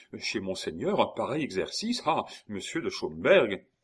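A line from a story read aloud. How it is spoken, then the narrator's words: Exclaimed. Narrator (French): s'écria Aurilly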